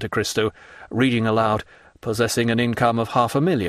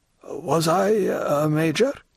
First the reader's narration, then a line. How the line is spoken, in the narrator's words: timidly asked the old soldier